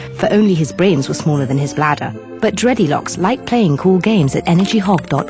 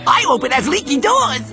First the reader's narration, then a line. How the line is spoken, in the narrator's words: cried the second